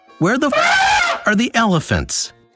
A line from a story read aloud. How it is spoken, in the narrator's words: He yelled